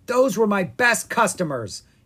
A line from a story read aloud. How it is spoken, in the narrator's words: he said angrily